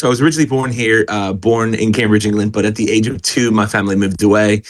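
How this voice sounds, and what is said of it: American-influenced English accent. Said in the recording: “you do not have a Cambridgeshire accent ... which is where I picked up the y'all. That comes out quite strongly ... the accent hasn't fully been kicked out”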